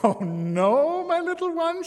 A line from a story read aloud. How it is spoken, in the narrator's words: she laughed